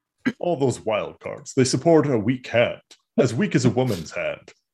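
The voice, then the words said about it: Good impression of Worf. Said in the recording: “it's a pretty good Worf impression.”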